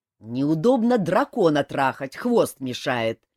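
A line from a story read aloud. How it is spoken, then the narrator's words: Angry king replying. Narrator (Russian): сердито ответил король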